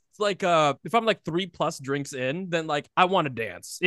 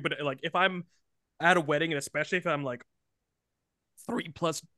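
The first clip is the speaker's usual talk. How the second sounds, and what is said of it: Voice cracks mid-sentence. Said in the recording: “my voice cracked. I'm going through puberty.”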